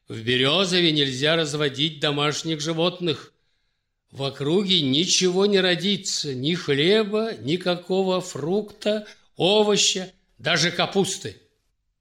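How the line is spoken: Stern warning. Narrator (Russian): словно желая больнее отомстить молодой княгине Наталье за насмешки, конвойный офицер строго предупредил

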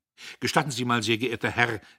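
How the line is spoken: Called out. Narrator (German): rief jemand

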